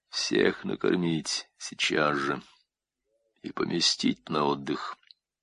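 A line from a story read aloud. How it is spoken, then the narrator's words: Quiet command. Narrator (Russian): распорядился тихим голосом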